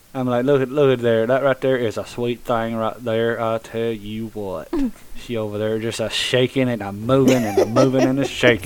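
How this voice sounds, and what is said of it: Exaggerated Southern country twang. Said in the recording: “it so country when you said that ... I just got your southern twang.”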